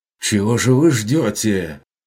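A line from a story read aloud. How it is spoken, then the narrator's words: Shouted over battering noise. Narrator (Russian): выкрикнул трактирщик, перекрывая звуки тарана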